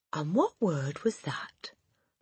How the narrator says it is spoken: The Trunchbull asked softly

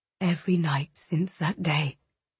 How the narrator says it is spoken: he whispered against her mouth

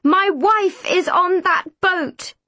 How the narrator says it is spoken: he screamed

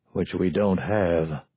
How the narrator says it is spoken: Jellison muttered

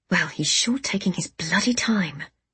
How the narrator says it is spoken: I muttered

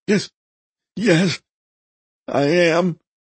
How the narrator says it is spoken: Agnan gasped

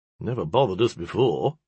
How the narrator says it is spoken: a young man muttered at the back

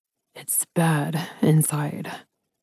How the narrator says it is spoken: Ryder said in a low voice

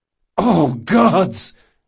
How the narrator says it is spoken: Jean cried

